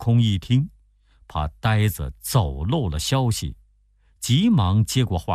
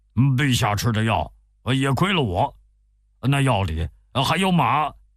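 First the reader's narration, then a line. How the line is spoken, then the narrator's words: Cried out. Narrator (Chinese): 八戒在旁边看到这酒怎么也轮不到自己，忍不住叫了起来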